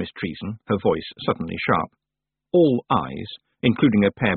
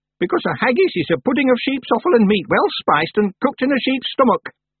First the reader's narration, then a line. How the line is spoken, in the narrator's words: said Miss Treason sharply